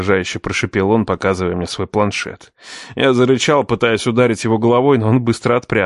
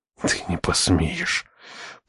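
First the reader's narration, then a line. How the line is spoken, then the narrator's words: Furious whisper. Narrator (Russian): прошептал я, разрываясь от ярости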